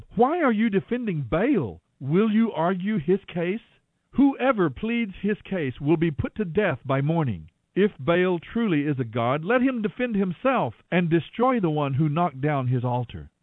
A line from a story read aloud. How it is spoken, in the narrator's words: Joash shouted to the mob